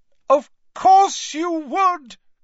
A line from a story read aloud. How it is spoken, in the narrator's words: cried